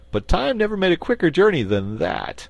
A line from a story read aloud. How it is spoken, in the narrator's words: laughed Button-Bright